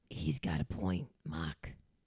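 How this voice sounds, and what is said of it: Boston accent on certain words. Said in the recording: “Is that a Boston accent? ... I sometimes it comes out in certain words.”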